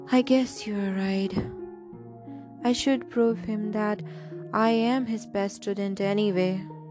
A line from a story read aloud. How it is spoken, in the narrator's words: He sighed and said